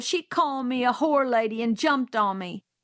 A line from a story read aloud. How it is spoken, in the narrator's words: he bawled